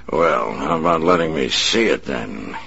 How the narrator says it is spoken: he mock-snarled

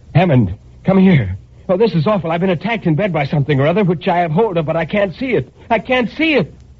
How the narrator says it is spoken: And I shouted to him

